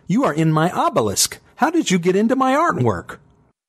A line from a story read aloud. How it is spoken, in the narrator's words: Impatiently now, she challenged